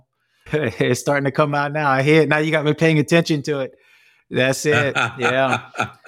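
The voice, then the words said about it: Thick New Orleans Cajun accent. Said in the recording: “I think I hear a hint of an accent in the back of your voice... I'm born and raised in New Orleans. So I got that Cajun coming out... it comes out even thicker... It gets thicker and thicker”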